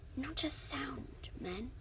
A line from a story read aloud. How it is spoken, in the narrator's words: breathed Odysseus to his troops